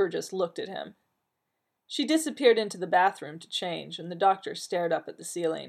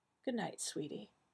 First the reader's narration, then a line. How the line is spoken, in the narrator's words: she sighed, so quietly that he almost didn't hear it